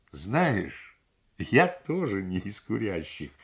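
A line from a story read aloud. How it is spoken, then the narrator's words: Sudden laugh. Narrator (Russian): вдруг рассмеялся Ардашеля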